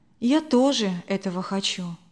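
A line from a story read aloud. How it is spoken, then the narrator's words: Quiet reply. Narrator (Russian): тихо ответила она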